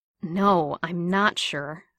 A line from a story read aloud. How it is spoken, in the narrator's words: Steve said, nearly groaning